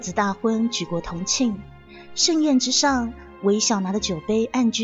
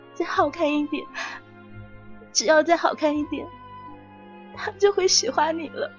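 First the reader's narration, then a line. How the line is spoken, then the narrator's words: Sobbing. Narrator (Chinese): 他对着镜中那个嚎啕大哭的自己说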